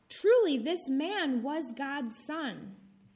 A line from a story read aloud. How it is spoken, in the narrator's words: The centurion and those with him exclaimed